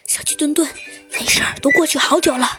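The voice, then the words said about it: Quiet, hushed speech. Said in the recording (Chinese): “小声的说道”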